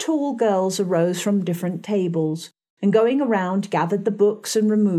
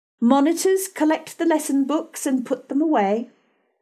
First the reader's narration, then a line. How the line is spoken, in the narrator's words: she cried out